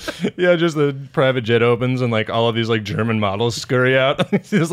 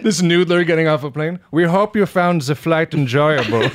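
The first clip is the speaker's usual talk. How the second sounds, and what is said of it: Put-on Cajun accent. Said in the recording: “that whole Jaws monologue in Cajun ... accent.”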